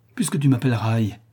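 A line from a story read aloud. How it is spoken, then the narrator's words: Exasperated outcry. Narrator (French): s'écria François exaspéré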